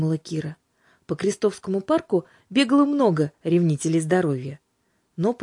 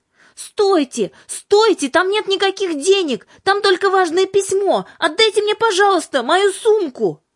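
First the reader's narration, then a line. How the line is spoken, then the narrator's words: Breathless shout while running. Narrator (Russian): кричала Кира, несясь по аллее вслед за вором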